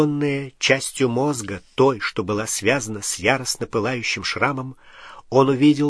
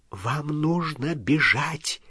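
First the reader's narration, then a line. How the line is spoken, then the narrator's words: Whisper. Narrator (Russian): прошептала профессор МакГонагал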